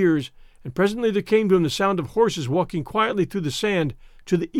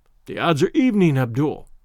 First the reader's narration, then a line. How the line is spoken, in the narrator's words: said Tarzan, with a low laugh